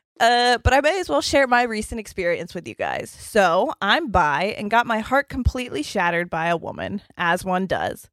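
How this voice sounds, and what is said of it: Croaky, frog-like voice. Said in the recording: “my voice is doing that fucking thing ... The frog voice”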